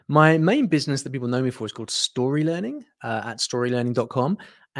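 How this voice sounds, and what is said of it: British English accent. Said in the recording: “I'm from the UK, as you can probably tell from my accent”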